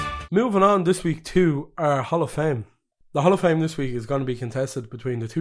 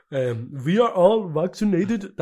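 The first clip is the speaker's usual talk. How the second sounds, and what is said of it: Badly done imitated accent. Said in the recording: “That's a horrible accent. Sorry, Jurgen.”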